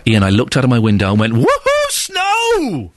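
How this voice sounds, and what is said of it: Loud, excited shouting voice. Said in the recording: “He wrote it in capital, so I did the voice for him.”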